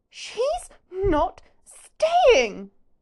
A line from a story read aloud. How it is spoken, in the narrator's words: Pansy practically shrieks